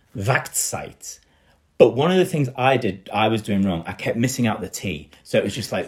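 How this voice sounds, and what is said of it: Yorkshire accent, dropped T sounds. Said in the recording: “that's actually my Yorkshire accent, which is just sort of missing out that T”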